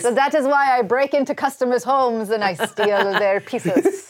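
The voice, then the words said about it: Swedish accent. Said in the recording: “This is ... actual accent. ... this is my actual accent. It is a Swedish accent, but it only comes out occasionally.”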